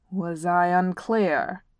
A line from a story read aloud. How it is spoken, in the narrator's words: Thorn growled